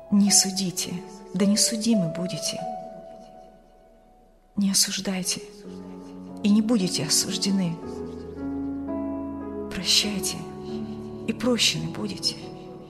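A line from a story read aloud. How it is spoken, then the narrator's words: Quiet young man. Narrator (Russian): тихо произнес молодой провизор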